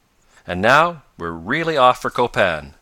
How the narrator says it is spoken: exclaimed Professor Bumper

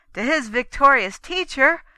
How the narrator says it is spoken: Tancred cried

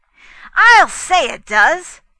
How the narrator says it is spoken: Fay agreed loudly, without thinking

